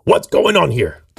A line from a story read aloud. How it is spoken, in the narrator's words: The Zapatero growled